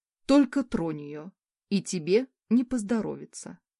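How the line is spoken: Calm. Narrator (Russian): спокойно ответил на угрозы Олестрой

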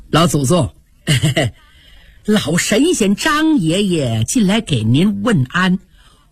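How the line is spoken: Smiling. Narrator (Chinese): 贾珍带笑说

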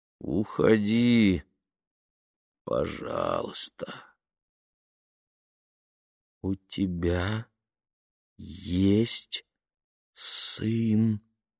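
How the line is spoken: Slow, measured. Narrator (Russian): медленно проговорила она

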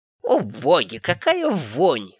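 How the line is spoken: Snort. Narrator (Russian): хмыкнула она

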